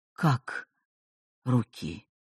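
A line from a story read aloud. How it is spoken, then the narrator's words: Confused mumble. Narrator (Russian): растерянно пробормотал Петр Игнатьевич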